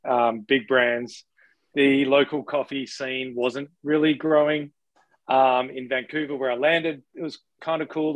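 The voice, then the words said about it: Australian accent. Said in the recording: “if you can't tell from the accent i'm an australian”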